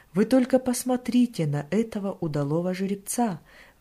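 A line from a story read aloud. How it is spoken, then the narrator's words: Exclaimed. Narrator (Russian): воскликнул кто-то из них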